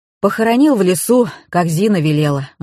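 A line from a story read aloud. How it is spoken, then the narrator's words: Gloomy reply. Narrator (Russian): мрачно ответил художник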